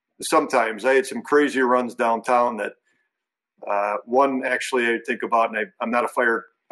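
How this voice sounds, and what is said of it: Hoarse, strained voice. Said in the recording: “I'm losing my voice too.”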